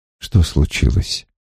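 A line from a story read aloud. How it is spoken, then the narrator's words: Gentle question. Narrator (Russian): Гет мягко спросил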